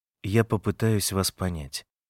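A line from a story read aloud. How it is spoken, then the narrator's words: Quiet, timid. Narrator (Russian): Я тихо и робко сказал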